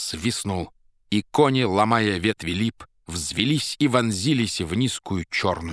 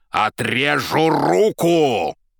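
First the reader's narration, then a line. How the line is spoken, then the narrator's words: Menacing shout. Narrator (Russian): Азазелла грозно закричал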